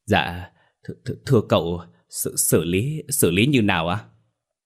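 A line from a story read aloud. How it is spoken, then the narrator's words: Stammering. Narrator (Vietnamese): Nó lắp bắp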